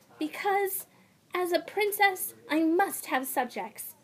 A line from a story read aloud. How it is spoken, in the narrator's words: Zarya gasped